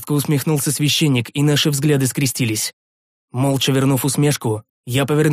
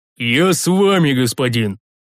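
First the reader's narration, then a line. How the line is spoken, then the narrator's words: Muffled growl, big man. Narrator (Russian): глухо заворчал здоровяк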